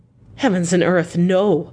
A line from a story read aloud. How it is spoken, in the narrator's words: cried Arthur, in a storm of passion